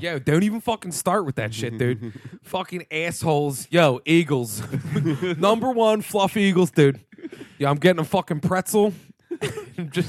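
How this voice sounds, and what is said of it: Put-on South Philly accent. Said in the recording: “the South Philly accent ... I can do the Philly one pretty good.”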